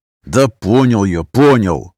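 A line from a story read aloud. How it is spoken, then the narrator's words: Through gritted teeth. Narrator (Russian): Отвечаю я сквозь зубы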